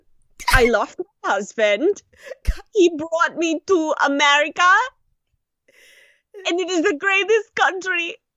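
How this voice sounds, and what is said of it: Russian accent, Red from Orange impression. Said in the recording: “What's a Russian accent? ... I'm like trying to channel Red from Orange is the New Black.”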